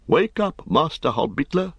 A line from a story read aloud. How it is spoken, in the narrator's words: He cried